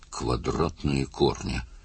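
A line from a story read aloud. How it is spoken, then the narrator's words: Interested mutter. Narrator (Russian): пробормотал заинтересованный Лессер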